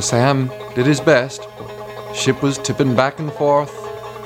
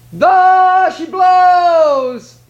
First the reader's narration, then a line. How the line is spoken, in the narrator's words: he cried